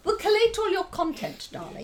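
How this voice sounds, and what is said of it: Posh royal British accent. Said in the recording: “Speaking with a rather royal accent there.”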